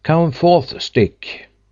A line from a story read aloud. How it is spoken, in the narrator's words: suddenly he called out